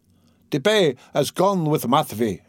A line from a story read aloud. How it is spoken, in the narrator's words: he shouted from the cart